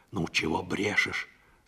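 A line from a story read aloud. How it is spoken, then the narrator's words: Displeased whisper. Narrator (Russian): сказала Парашка недовольным шепотом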